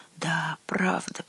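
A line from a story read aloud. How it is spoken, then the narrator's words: Muttered. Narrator (Russian): пробормотал Гюнтер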